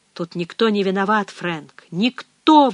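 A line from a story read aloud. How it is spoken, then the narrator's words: Priest exclaiming. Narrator (Russian): воскликнул священник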